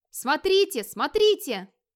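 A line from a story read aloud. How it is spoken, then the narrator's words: Ragged crowd shouting. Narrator (Russian): В разнобой кричали на берегу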